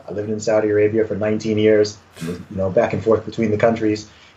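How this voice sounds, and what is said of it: Mixed British and American English accent. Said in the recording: “A lot of people hear my accent and they're like, where's this guy from? Is he British? Is he American? ... I learned how to speak English through American speakers”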